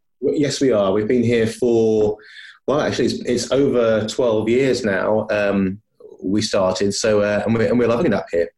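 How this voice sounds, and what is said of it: English accent, not Scottish. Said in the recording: “you can probably tell by my accent that I'm not a Scotsman by birth”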